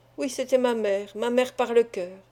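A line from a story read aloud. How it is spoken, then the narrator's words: Girl murmuring. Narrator (French): murmura la jeune fille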